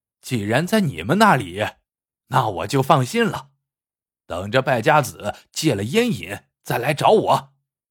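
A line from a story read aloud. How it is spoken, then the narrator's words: Pause, then slight smile. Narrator (Chinese): 马三愣了一下，忽然微微一笑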